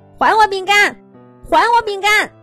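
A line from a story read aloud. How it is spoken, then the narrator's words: Shouting while running. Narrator (Chinese): 鸭小嘎在后面追，一边跑一边喊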